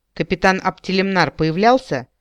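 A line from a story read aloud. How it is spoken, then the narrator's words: Cold question. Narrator (Russian): холодно спросила я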